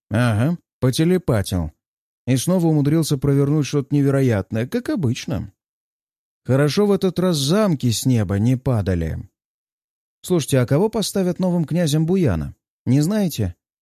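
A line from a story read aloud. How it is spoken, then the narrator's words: Friendly tone, heavy sigh. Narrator (Russian): Пользуясь дружеским тоном разговора, Кутузов тяжело вздыхает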